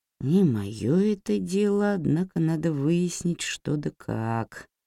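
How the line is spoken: Mumbled. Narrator (Russian): пробормотал он

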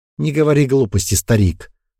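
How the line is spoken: Irritated. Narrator (Russian): раздраженно сказала Ирма

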